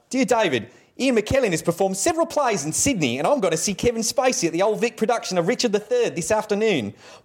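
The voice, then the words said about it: Bad put-on Australian accent. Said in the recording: “I do a bad Australian accent.”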